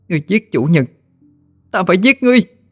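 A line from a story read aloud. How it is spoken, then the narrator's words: Anguished, angry cry. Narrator (Vietnamese): Linh thị nữ thất thần, sống lên một tiếng đầy ai oán và giận dữ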